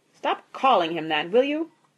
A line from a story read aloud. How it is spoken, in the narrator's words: snapped Mr